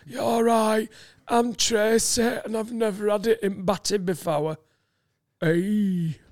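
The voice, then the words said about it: Put-on broad Yorkshire accent. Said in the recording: “what he thinks is a broad Yorkshire accent ... I'll do the voice”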